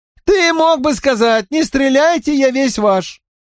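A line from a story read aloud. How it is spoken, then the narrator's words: Squeaky call from gallery. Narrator (Russian): пропищал с галерки Уэйн Саффорд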